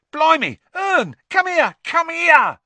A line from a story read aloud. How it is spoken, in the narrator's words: Stan shouted